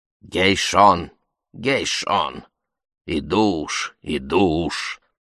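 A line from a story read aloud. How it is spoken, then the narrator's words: Tearful grumble. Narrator (Russian): проворчала Элеонора Карповна, роняя слезинки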